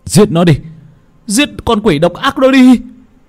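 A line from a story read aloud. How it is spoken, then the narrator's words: Crowd shouting in unison. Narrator (Vietnamese): Họ đồng thanh kêu lên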